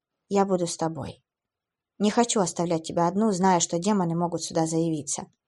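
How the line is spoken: Sad smiling man. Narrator (Russian): Он печально улыбнулся и сказал

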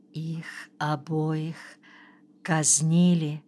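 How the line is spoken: Quiet question. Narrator (Russian): тихо спросила Анна

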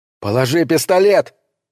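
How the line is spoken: Shout. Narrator (Russian): крикнул Николас Шеннону

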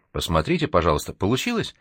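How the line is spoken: Anxious request. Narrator (Russian): взволнованно попросила она

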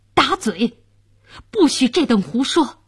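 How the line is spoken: Furious. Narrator (Chinese): 监斩官大怒道

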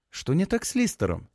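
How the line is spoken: Quiet question. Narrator (Russian): тихо спрашивает Ферка

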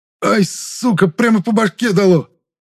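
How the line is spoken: Angry shout, pursuer. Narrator (Russian): Зло выкрикнул преследователь

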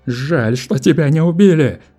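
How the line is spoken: Frantic yelling. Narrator (Russian): орал потерявший голову Нунеппи

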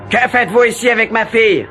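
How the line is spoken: Shouted. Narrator (French): hurla-t-il

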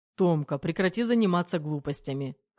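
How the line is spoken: Scoffing. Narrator (Russian): хмыкнул Терехов

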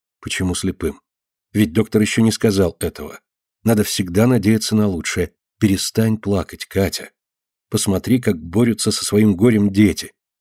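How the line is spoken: Gentle reproach. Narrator (Russian): мягко упрекала ее сестра

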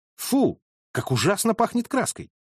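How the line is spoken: Exclaimed. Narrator (Russian): воскликнул

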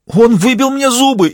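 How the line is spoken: Frightened shout. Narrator (Russian): испуганно выкрикнул Виталий

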